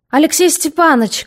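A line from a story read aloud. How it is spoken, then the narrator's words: Shouting. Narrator (Russian): крикнул полицмейстер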